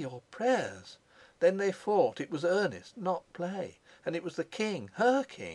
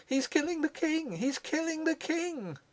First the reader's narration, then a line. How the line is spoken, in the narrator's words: cried Rosa